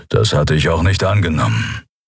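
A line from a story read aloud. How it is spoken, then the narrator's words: Growl. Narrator (German): knurrte der Skria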